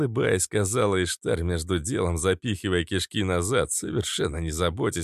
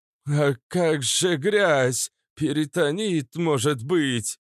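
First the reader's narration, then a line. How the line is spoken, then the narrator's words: Frightened question. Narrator (Russian): Испуганно спросил Вальдемар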